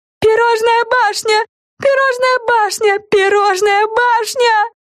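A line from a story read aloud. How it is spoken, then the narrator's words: Joyful yelling. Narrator (Russian): завопила Френ, радостно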